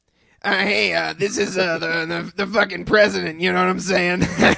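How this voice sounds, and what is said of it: Imitates another person's voice. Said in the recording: “do a quick impression about how a prank call of Joey Krebs doing a prank call might go”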